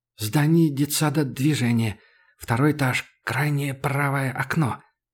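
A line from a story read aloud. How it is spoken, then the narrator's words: Hissed. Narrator (Russian): прошипел китаец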